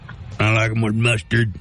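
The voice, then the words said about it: Imitates another person's voice. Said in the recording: “my Billy Bob Thornton impression”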